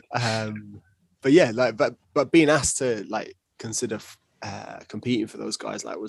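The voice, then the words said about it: Deep Scottish accent. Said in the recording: “my really Scottish accent. deep Scottish”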